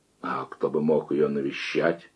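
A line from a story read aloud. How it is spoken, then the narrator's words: Quiet question. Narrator (Russian): тихо спросил Нагульнов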